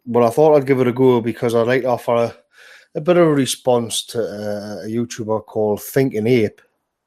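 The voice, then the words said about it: Stuffy voice with a cold. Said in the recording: “I've been suffering from a cold. The Americans would have an even harder time understanding my accent.”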